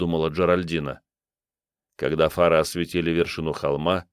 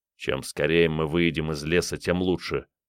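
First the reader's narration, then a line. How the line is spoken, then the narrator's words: Grumbling. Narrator (Russian): проворчал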